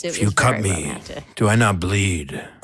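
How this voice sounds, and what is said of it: Deep baritone radio voice. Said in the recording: “With a radio voice, too. ... With a deep baritone radio voice.”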